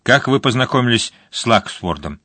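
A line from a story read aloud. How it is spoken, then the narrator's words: Sharp question. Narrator (Russian): она резко спросила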